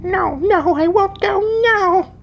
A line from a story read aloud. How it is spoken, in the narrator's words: the child wailed